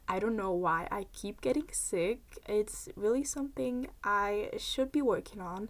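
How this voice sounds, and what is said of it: Slightly raspy voice. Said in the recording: “I caught a cold again, so if my voice sounds a bit raspy or just annoying”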